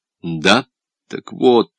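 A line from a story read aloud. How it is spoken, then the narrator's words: Quiet explanation. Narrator (Russian): тихонько пояснил Оболенский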